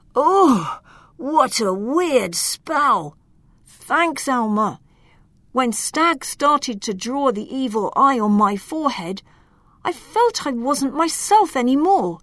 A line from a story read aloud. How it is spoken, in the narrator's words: He groaned